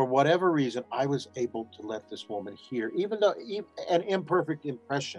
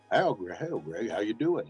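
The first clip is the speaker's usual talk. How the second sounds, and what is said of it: Poor impression of another person's voice. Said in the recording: “did a crappy impression of him... which I do a terrible. That's not how you sounded. Uh, he had a Texas accent.”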